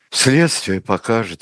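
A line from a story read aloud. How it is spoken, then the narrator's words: Reluctant exhaled reply. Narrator (Russian): выдохнула Надежда Константиновна, не желавшая вести спор с тяжело больным человеком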